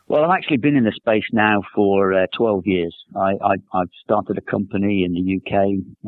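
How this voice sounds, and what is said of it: Slight English accent. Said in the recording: “I noticed a slight accent ... Are you from the other side of the pond? ... I'm from the UK, from England.”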